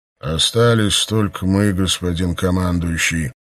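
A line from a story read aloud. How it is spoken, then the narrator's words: Muffled hollow reply. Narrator (Russian): глухим голосом ответил егерь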